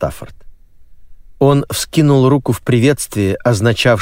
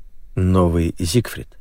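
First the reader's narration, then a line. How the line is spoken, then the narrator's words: Quiet mutter. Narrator (Russian): тихо пробормотал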